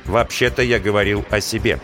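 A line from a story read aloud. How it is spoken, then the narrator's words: Plain. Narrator (Russian): сказал Линь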